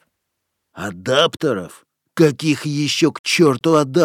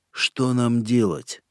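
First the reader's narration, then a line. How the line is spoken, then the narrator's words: Quiet sigh. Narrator (Russian): Боб Фостер вздохнул и тихо произнес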